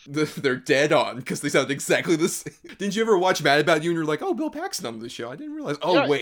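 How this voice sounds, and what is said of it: Usual voice. Nothing is said of it.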